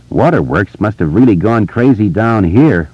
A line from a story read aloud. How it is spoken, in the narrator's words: Richie said and laughed uneasily